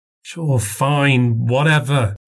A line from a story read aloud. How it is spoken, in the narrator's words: she sighed